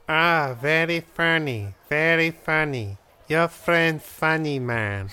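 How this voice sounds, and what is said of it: Put-on caricatured Chinese accent. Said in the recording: “where'd your accent go? ... that's just a ruse I put on for the customers ... I pretend to be an actual Chinese person”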